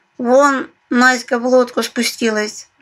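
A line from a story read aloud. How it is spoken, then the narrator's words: Purring. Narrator (Russian): промурлыкала кошка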